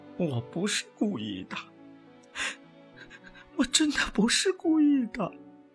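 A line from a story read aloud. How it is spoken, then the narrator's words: Crying, guilty. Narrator (Chinese): 我知道闯了大祸，哭着说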